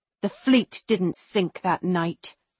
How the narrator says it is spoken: I hiss at her

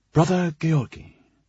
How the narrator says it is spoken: Sebastian said in a low, respectful tone

